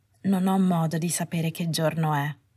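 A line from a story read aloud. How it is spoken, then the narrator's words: Flat voice. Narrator (Italian): disse con voce piatta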